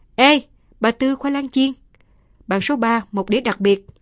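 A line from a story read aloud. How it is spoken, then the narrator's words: Loud call. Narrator (Vietnamese): có người lớn tiếng kêu lại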